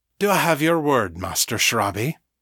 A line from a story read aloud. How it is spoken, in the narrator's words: Daniel sighed